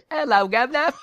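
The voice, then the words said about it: Fake British accent. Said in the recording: “his manager has a fake British accent.”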